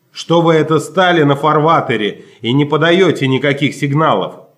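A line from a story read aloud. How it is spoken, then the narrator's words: Angry shout. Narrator (Russian): сердито закричал Чарли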